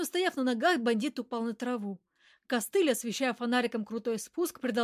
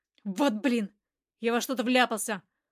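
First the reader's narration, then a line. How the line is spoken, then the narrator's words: Irritated. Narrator (Russian): раздраженно заявил он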